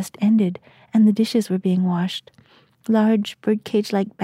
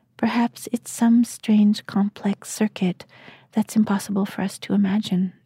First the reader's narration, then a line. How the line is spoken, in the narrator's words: the man murmured